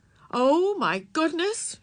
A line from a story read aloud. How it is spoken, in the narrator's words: cried